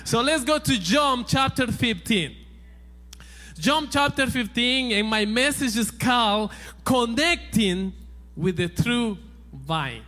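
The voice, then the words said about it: Noticeable non-native accent. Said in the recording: “if you notice an accent, yeah, the Lord made me that way.”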